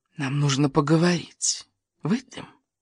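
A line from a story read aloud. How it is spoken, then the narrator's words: Hissed close to ear. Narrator (Russian): Незнакомка наклонилась к самому уху Элисии и прошипела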